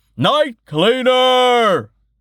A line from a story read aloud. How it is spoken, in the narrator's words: someone shouted